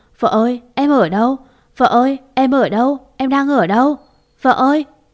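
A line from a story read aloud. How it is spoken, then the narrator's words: Wailing, sobbing. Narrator (Vietnamese): Gia Minh chỉ biết gào thét, miệng lẩm bẩm khóc gọi tên Khả Uyên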